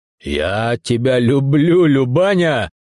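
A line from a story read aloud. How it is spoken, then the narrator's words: Shouting with grateful delight. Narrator (Russian): крикнул в порыве восторженной благодарности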